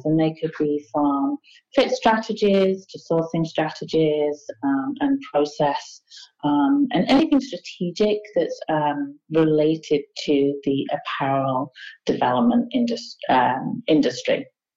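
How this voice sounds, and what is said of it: Slight British-sounding accent. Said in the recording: “I sense a little accent... It sounds like you're from the United Kingdom”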